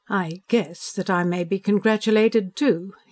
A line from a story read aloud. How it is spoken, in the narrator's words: he sneered